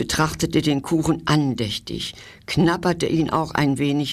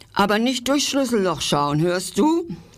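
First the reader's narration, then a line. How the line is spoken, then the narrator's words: Mouse calling after. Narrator (German): rief die Maus hinter ihm her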